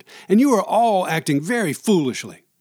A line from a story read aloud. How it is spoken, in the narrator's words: Mackey shouted